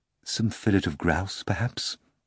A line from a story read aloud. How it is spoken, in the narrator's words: Archibald Archibaldovich purred sweetly